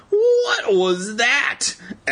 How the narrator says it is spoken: Evan cried

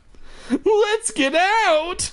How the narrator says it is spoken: I cried

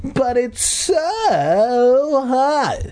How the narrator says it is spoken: Mindy whined like a typical girl

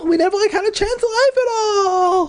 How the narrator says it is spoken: Louisa cried, correcting herself when she stumbled

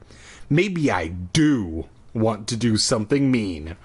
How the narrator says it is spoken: I growled

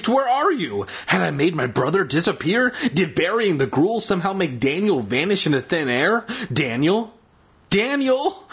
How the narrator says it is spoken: I called in a trembling voice

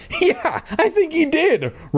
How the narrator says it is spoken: Regina said through her scornful laughter

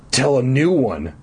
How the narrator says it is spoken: I insisted eagerly

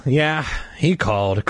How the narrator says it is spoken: Carly Beth replied bitterly

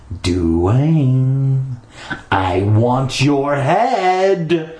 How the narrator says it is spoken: he called, his voice echoing against the concrete walls

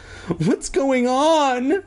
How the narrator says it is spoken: Andy cried

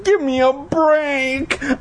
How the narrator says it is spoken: I screamed

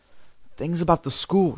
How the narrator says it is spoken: muttered

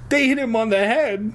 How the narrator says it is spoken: she cried

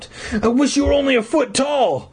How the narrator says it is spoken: I cried

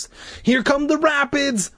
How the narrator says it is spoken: Larry shouted, cupping his hands around his mouth so we could hear him

